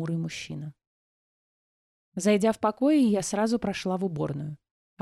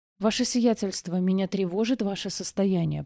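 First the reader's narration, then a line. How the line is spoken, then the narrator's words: Muttered. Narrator (Russian): пробормотал Авиокранц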